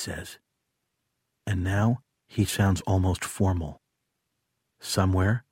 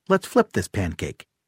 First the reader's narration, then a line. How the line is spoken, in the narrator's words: she says cheerfully